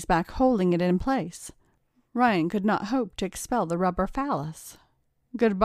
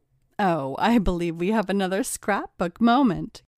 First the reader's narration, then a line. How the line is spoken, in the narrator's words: giggled Kayla